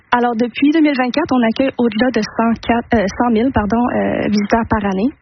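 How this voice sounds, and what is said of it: Slight charming accent in French. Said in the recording (French): “votre petit accent, qui est absolument magnifique”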